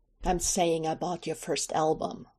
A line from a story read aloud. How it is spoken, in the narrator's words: Michael says, almost savagely